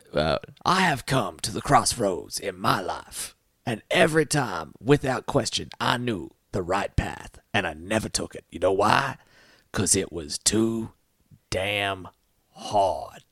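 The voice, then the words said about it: Imitates another person's voice. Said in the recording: “he's being Colonel Slade from... a scent of woman”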